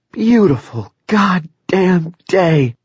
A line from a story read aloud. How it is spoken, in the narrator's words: Claudie exclaimed